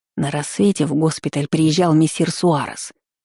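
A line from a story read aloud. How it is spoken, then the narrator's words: Whispering. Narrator (Russian): прошептала Гретта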